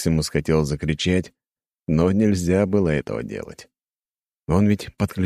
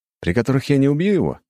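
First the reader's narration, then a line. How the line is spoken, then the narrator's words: Wry snort. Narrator (Russian): хмыкнул охотник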